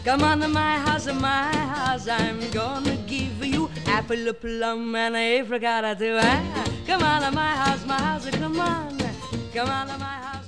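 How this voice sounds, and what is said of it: Sung with an Italian accent. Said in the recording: “Rosemary's Italian accent, which he had picked up from Tony Pastor's musicians”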